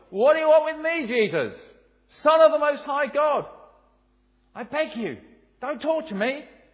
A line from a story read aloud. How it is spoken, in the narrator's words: he cried out and fell at his feet, shouting at the top of his voice